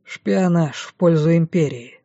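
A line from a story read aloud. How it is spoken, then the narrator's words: Dry. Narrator (Russian): сухо произнес Агюст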